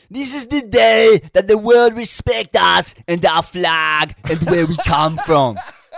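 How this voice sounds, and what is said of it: Put-on Brazilian accent. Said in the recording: “Do I bung on my best Brazilian accent for this? ... I'll have a crack. ... Nah, you might have to pull it in.”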